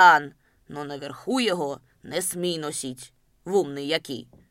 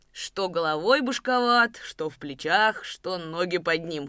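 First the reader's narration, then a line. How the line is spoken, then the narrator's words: Loud laughing. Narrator (Russian): хохотал разметнув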